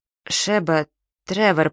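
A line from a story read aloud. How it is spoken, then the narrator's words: Uncertain voice. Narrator (Russian): проговорил я неуверенным голосом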